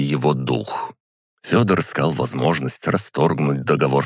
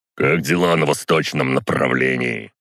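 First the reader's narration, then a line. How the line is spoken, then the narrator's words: Gloomy bass question. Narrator (Russian): хмуро спросил глава рати Георгий Картунский, своим басовитым голосом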